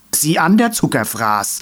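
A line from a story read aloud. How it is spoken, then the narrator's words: Calling after someone. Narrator (German): rief der ehemalige Stänkerer hinterher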